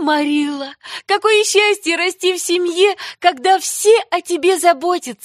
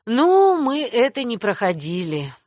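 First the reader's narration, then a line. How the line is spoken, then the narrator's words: Sad sigh. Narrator (Russian): грустно вздохнула Марилла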